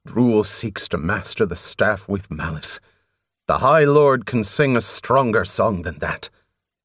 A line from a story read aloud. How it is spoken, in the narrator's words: he said roughly